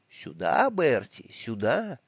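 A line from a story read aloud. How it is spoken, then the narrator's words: Soft whisper. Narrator (Russian): холодный пирог с телятиной и почками, который тихонько мне шепчет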